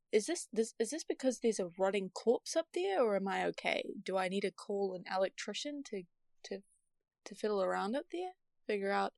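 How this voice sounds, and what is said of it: Speaks with a noticeable accent. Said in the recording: “this is your accent, and I think it's cool accent. I wish I had a cool accent”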